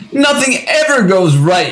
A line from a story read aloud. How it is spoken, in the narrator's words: she cried out